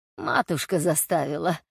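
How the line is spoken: Soft laughing man. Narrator (Russian): тихонько засмеялся мужчина

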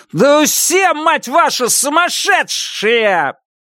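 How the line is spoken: Shouted. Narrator (Russian): выкрикнул

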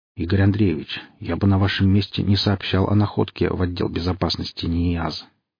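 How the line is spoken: Quietly spoken. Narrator (Russian): негромко проговорил Бондарев

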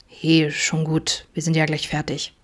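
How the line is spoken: Gentle murmur. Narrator (German): murmelte Adam behutsam

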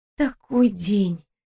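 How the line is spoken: Quiet breathy young woman. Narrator (Russian): тихо выдохнула девушка

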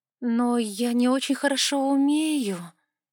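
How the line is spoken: Uncertain drawl. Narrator (Russian): неуверенно протянула я

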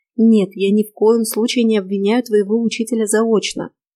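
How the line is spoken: Gentle. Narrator (Russian): мягко продолжила я

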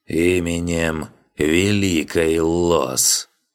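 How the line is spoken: Priest's solemn creak. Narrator (Russian): Жрец многообещающе улыбнулся и торжественно проскрипел

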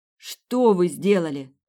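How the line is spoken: Shouted. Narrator (Russian): крикнула Сабина

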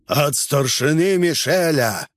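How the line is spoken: Disguised hoarse rasp. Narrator (Russian): Меняя голос, захрипел я

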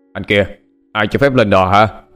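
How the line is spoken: Startled shout. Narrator (Vietnamese): Anh ta tỏ vẻ sửng sốt, tiếng quát tháo

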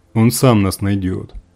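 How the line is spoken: Booming voice. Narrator (Russian): прогремел попутчик

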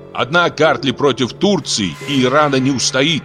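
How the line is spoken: Menacing shout. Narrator (Russian): грозно крикнул Саакадзе

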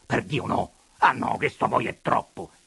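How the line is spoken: Horrified shout while fleeing. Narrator (Italian): Corrado Selmi fece un gesto d'orrore e scappò via, gridando

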